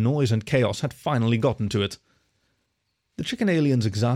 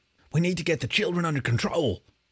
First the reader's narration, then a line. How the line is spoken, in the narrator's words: Captain Jacques breathed under his whiskers